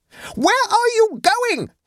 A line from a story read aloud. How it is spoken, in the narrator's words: screamed Adela